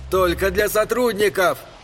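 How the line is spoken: Shouted. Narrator (Russian): крикнул Эдди

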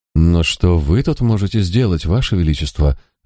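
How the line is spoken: Worried question. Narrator (Russian): обеспокоенным тоном спросил Роберт

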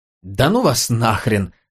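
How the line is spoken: Laughing. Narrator (Russian): рассмеялся Габриэль

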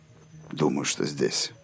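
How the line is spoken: Muttered. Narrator (Russian): пробормотал Роланд

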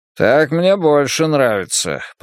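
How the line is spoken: Muttered. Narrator (Russian): пробормотал койот

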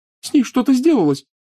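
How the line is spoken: Sobbing. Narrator (Russian): всхлипывала Лиана

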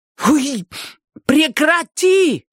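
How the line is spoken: Yelling. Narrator (Russian): заорала она

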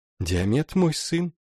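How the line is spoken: Calm owl. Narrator (Russian): спокойно ответила сова

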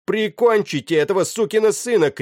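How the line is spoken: Shouting. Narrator (Russian): крикнул капитан команде

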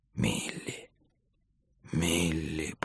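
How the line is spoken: Whisper. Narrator (Russian): прошептал он

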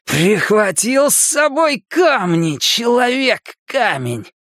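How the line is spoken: Roar. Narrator (Russian): проревел Генри

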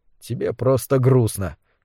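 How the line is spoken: Quiet. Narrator (Russian): негромко сказал Кэл

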